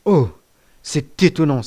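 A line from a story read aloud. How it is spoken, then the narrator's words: Exclaiming. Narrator (French): s'écria-t-il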